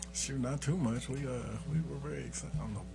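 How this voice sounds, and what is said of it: Quiet, soft-spoken delivery. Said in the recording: “why am I talking so quiet? ... You got real fireside chat.”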